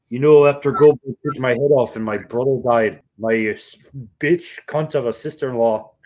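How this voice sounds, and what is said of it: Bret Hart impression, unclear accent. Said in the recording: “I don't know what kind of accent I'm doing”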